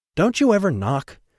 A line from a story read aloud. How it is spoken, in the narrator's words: O'Shea blurted out at the brightly Hawaiian-clad Remus